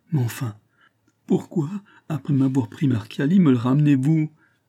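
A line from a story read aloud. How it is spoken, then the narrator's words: Anguished, emotional cry. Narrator (French): s'écria le malheureux gouverneur dans un paroxysme de douleur et d'attendrissement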